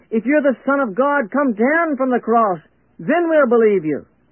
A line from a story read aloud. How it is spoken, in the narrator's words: called out